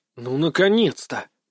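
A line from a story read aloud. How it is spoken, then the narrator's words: Grumbling. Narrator (Russian): проворчал я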